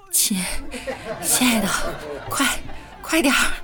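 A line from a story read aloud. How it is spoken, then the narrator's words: Breathless panting. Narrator (Chinese): 我男朋友在旁边同样喘着粗气说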